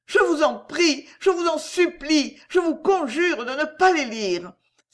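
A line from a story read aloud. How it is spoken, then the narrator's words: Exclaiming. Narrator (French): s'écria Miss Portman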